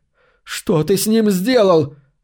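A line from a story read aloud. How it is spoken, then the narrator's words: Shouted out. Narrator (Russian): выкрикнула Кассандра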